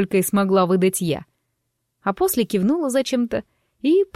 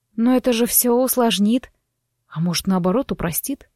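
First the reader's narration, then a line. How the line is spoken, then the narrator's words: Quiet objection. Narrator (Russian): тихо возразил он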